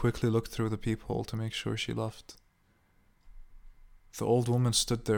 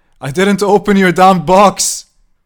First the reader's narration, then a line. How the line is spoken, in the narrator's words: he screamed back